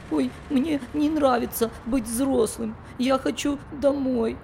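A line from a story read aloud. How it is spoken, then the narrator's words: Tearful. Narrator (Russian): сказал сквозь слезы Фафа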